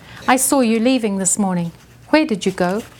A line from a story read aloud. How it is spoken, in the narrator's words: asked